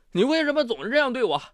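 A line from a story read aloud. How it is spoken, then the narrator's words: Aggrieved crying. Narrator (Chinese): 谭博委屈地哭道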